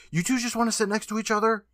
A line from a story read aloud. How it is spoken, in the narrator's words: the girl between them snaps